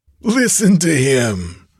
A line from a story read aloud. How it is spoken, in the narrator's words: he shouted jeeringly